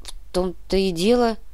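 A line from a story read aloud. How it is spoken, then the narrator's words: Mumble. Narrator (Russian): промямлил Павлов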